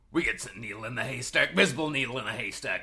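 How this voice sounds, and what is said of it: Put-on accent reading Alex Jones quote. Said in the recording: “This is a quote from Alex Jones... do you want to do it in your accent?”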